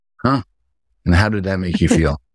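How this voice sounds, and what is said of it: Calm, measured therapist-style voice. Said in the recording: “I'm trying my therapist voice.”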